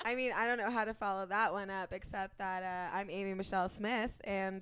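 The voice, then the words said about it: Husky, sultry under-the-weather voice. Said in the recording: “my voice sounds really sexy today because I'm a little bit under the weather.”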